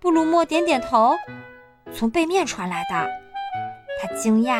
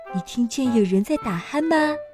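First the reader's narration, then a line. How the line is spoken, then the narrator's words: Soft question. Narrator (Chinese): 轻声问道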